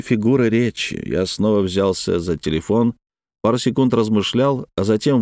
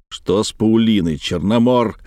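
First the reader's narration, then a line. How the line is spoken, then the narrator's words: Barked. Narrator (Russian): рявкнул я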